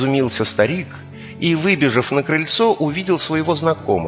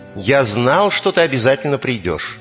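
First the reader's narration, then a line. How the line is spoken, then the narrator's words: Joyful exclamation. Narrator (Russian): радостно воскликнул он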